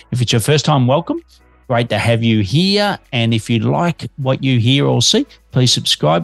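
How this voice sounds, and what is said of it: Australian accent. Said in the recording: “I am an Aussie living in Melbourne, Australia, but I have got a bit of an accent”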